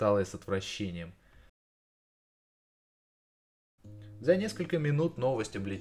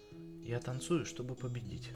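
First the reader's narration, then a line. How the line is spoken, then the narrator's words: Calm announcement. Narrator (Russian): спокойно объявила она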